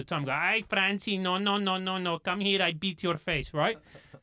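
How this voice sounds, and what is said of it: Poor put-on accent imitation. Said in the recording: “He can't even do his own mum's accent.”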